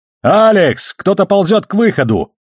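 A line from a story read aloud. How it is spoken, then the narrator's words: Shouting at full lung power. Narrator (Russian): Во всю силу легких прокричал Холден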